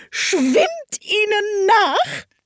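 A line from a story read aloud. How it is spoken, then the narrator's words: Griffin shrieking. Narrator (German): kreischte der Greif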